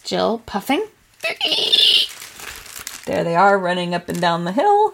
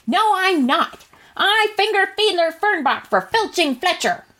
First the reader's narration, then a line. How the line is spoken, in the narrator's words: yelled running up the hill